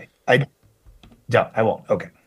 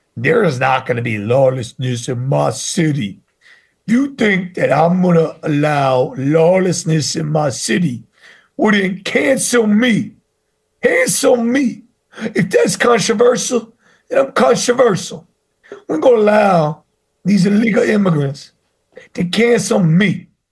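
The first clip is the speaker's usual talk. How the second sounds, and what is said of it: Eric Adams impression. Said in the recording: “Eric Adams. ... Good impression. ... I do better Eric Adams than Jeremy”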